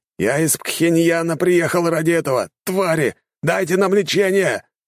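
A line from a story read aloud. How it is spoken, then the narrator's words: Furious man shouting. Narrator (Russian): кричал взбешенный мужчина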